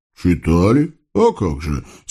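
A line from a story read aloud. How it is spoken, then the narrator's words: Pensive agreement. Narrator (Russian): согласился атаман, травинку задумчиво покусывая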